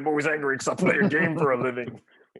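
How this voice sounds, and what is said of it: Impression of Roy Kent's voice. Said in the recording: “I'm about as bad as Roy Kent is with impersonations ... That was actually really good.”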